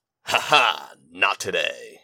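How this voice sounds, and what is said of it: Action hero voice. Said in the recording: “in my best action hero voice.”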